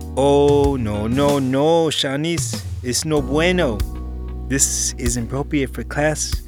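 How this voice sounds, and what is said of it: Put-on Hispanic accent. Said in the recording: “He then said in a Hispanic accent”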